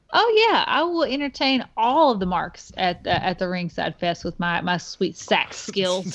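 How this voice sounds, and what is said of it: American country accent. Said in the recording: “I have a country accent”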